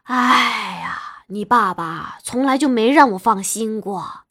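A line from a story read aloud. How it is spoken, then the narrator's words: Sighing. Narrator (Chinese): 她叹了口气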